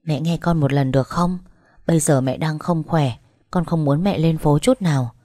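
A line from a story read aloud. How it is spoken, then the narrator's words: Soft, gentle. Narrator (Vietnamese): Tôi nói nhỏ nhẹ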